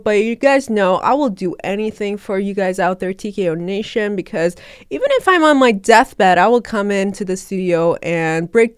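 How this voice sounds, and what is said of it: Sick, weird-sounding voice. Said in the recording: “weird voice that you might be hearing right now through the mic because I've been very, very sick for the past two days”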